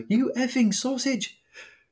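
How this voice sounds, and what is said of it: Good put-on English accent. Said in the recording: “I like your accent when you do it. You've got a very good English accent coming on there.”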